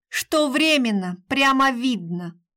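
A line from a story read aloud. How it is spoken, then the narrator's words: Snorting. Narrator (Russian): фыркнула Маша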